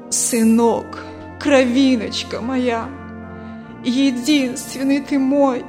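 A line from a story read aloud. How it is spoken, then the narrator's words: Old mother sobbing. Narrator (Russian): Старая мать сквозь рыдания говорит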